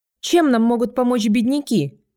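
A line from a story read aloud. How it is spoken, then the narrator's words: An outlaw shouting. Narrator (Russian): крикнул кто-то из вольных стрелков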